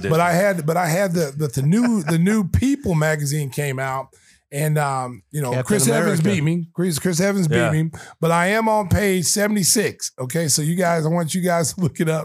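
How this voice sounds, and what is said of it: Hoarse, nearly lost voice. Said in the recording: “My voice is gone, America.”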